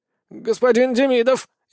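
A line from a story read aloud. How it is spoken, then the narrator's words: Frightened goose. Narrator (Russian): испуганно ответил гусь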